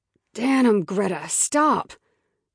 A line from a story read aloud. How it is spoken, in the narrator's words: Isaac grunted